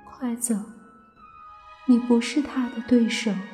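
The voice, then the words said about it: Weak, feeble character voice. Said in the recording (Chinese): “用虚弱的声音说”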